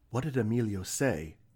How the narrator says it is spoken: Isra breathed

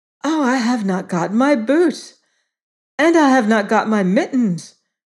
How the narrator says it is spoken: cried little Gerda

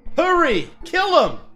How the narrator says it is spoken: The woman's husband shouted to us

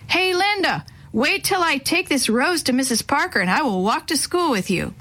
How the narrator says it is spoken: he yelled across the street

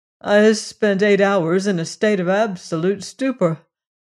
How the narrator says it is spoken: he answered, laughing

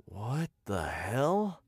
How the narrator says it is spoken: I muttered, staring in bewilderment

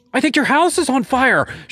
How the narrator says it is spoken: screamed

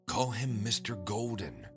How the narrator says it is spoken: she whispered to me

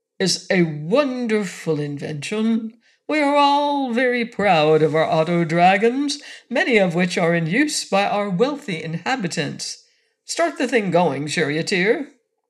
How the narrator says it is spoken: said the High Cocolorum pompously

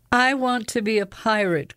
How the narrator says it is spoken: cried

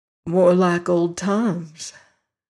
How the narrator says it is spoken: said the Virginian, but sadly

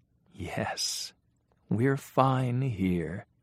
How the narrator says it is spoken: agreed Mattie in a soft, sweet voice

